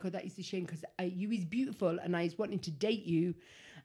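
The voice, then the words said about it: Put-on Welsh accent, sounds like Ali G. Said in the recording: “now he's Ali G. ... Parisian Ali G. ... I think I do good accents. ... I did a really good impression. ... I said Welsh.”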